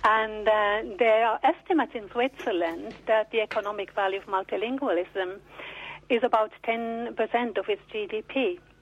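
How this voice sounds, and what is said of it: Slight Swiss accent. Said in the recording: “I have a bit of an accent, so I can say that I'm from Switzerland”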